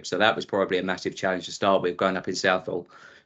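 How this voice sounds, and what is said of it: Essex English accent. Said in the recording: “I moved out to Essex, which is which you probably tell from my accent”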